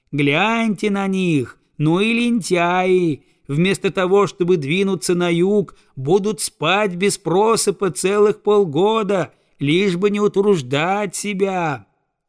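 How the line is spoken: Old geese shouting back. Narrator (Russian): старые дикие гуси закричали своим гусятам

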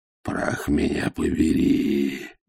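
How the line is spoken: Breathed out. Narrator (Russian): выдохнул он

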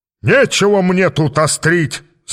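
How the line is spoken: Devil yelling. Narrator (Russian): заорал дьявол

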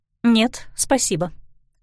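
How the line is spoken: Dry refusal, woman. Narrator (Russian): сухо отказалась женщина

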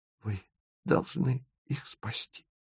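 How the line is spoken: Cracked whisper. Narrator (Russian): шепчет она над треснутым голосом

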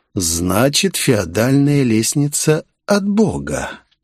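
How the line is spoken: Insinuating question. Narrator (Russian): вкрадчиво спросил я

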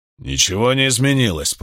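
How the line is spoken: Growl. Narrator (Russian): прорычал мужчина со шрамом

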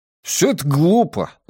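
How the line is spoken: Exclaiming. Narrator (Russian): воскликнул Джеспер

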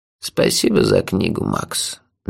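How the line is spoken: Gentle. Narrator (Russian): мягко сказал он

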